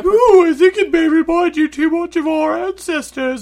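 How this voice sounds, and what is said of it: Cartoon piggy character voice. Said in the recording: “do that voice really well ... you sound not like Mrs. Doubtfire. You sound like the wrong piggy. You sound great.”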